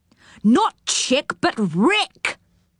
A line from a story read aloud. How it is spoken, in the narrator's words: shouted Moonface